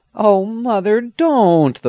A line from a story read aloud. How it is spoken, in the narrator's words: the boy exclaimed